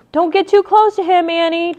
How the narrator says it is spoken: Jack shouted

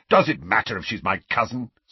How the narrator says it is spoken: snapped Sirius

